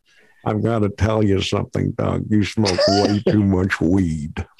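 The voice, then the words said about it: Imitates another person's voice. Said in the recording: “they all do an impression of Barry Katz. And I swear to you, man, this is exactly how he sounds.”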